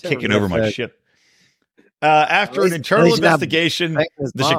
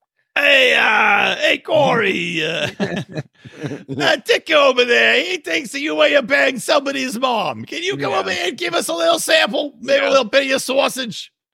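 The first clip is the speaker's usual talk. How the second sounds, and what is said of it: Put-on Chicago accent. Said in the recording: “you gotta say it in a Chicago accent how they would do it”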